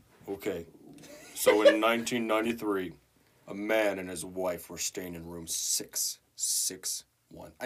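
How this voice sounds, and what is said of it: Deep, spooky voice. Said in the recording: “Lower your voice ... Get real deep. Get real deep and spooky for this.”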